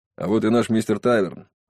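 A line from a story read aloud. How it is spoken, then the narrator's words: Grumbled. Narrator (Russian): буркнул Макналти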